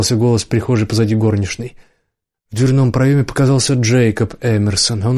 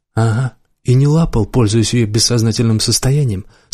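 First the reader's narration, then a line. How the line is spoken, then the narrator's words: Plain. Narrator (Russian): спросил Ланс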